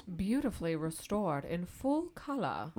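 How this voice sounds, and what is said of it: Mock British accent, not very good. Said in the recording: “that didn't have a super British influence on it even a little bit ... that wasn't a British accent. My British accent is much, much better than that”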